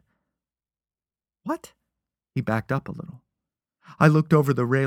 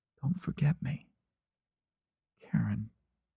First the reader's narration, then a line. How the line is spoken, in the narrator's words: I said softly